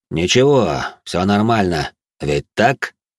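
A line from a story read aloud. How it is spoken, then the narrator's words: Cold tone, man. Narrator (Russian): произнес холодным тоном мужчина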